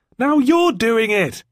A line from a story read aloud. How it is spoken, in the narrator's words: she yelled